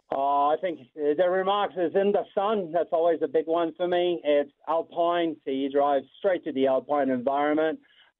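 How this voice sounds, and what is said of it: French-Canadian accent with New Zealand influence. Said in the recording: “you got a magnificent accent ... French-Canadian ... hang out in New Zealand. That's the accent you end up with.”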